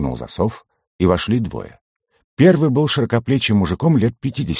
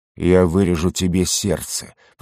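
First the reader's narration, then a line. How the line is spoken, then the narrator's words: Through gritted teeth. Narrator (Russian): процедил он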